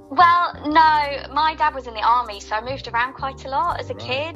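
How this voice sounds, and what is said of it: Mixed London English accent. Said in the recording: “I've got a bit of a mix of accents. A lot of people ask me if I'm from Essex, but I would say mostly London.”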